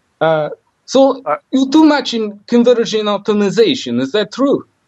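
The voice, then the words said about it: Put-on Russian accent. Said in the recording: “I do a Russian accent... it's very tough... I can spot a good Russian accent”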